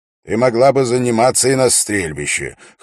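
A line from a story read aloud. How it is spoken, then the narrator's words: Wry snort. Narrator (Russian): хмыкнул Дункан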